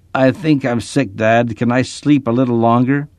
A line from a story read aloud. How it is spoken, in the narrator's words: she groaned